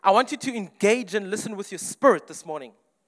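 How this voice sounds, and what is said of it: Speaker with a distinctive accent. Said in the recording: “my funny accent”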